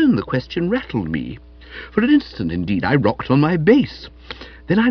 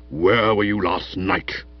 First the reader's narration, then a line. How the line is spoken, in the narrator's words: said, in a rumbling voice like the Cornish Express going through a tunnel